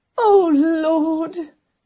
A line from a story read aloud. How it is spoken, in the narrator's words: Amelia wailed again